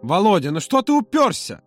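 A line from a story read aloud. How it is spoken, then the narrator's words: Loud exclamation, then lowered. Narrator (Russian): воскликнул Юра так громко, стыдливо понизил голос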